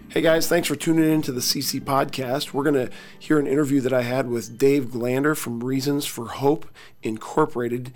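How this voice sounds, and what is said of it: Hoarse, worn-out voice. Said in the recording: “my voice is shot”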